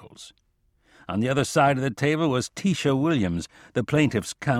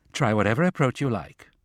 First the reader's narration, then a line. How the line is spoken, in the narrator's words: said Tisha, her tone less than amicable